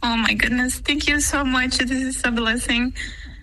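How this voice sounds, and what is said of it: Emotional, choked-up voice. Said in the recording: “Why do you get emotional?”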